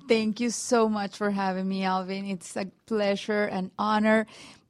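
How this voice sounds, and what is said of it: Latina Spanish-influenced English accent. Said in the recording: “accent, you know. The microphones identify that I am a Latina, so they give me the accent”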